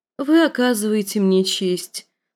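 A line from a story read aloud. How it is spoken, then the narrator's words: Gentle affectionate. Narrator (Russian): сказала она ласково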